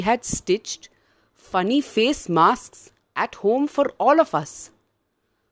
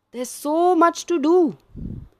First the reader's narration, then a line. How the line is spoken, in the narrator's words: Grandma yelled